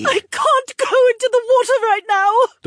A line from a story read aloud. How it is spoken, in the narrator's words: the woman sobbed